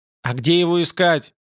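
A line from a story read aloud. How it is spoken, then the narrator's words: Snapping. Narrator (Russian): огрызнулся Ютланд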